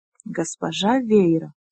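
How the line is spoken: Stunned whisper. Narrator (Russian): прошептала, не в силах, казалось, освоиться с этой мыслью

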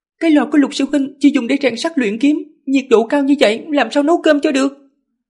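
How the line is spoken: Irritable snapping. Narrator (Vietnamese): sự áy náy biến thành cấu kỉnh, nàng mới gắt lên

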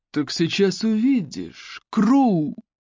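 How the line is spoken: Growl. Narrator (Russian): рыкнул Бейли Роуч

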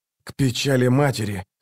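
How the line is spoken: Hoarse, strained between blows. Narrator (Russian): хрипел он между ударами

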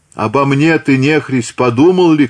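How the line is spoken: Shouting. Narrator (Russian): кричала Гавриловна

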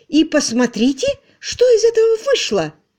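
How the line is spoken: Indignant. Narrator (Russian): возмущенно сказала она

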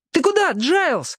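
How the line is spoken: Comrade shouting after. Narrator (Russian): крикнул вдогонку товарищ

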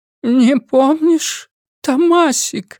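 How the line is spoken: Trembling voice. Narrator (Russian): повторила она дрожащим голосом

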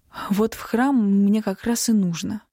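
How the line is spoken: Breathed out. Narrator (Russian): выдохнула я

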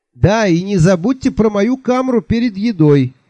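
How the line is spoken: Cheerful shout after someone. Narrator (Russian): весело крикнул вслед

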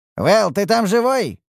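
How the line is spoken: Shout while coughing. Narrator (Russian): крикнул я, кашляя из-за поднятой пыли

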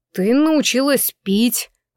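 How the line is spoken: Gloomy statement. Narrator (Russian): мрачно констатировал Джейс

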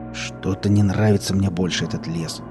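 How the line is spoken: Muttering. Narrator (Russian): пробормотал он

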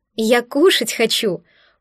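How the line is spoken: Panicked, exasperated exclamation. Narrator (Russian): панически воскликнула я, злясь на свое тело

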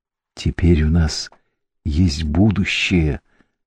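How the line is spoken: Whispered. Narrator (Russian): шепнула она

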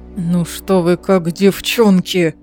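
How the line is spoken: Stern grumble through teeth. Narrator (Russian): Проворчал сквозь зубы суровый принц с серебристыми волосами

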